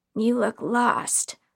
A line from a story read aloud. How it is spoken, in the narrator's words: the one with the crooked yellow teeth sneered